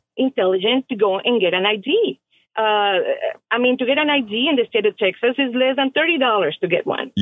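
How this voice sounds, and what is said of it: Noticeable non-native accent. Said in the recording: “based on my accent, you can tell I'm not from this country.”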